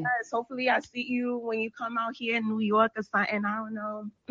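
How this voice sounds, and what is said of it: New York accent. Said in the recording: “I love them New York accents.”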